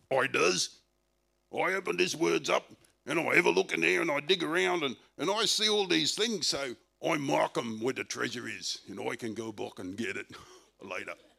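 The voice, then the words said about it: Australian pirate voice. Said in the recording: “That's an Australian pirate.”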